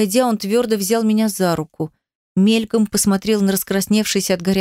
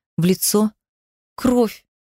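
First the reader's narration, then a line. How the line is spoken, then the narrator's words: Trembling hysterical sobbing. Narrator (Russian): Дрожащим голосом истерично выдавила я сквозь глухие рыдания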